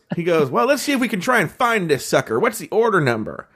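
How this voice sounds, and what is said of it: Old-timey general-like voice. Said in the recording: “He was such an odd personality... like almost like an old timey general... That's actually a better impersonation.”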